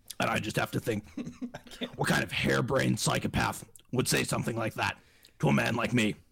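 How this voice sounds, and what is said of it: Imitates another person's voice. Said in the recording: “That's an incredible impersonation”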